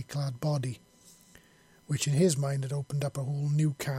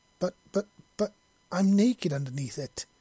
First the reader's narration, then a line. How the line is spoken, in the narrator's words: he exclaimed, his heart leaping into his chest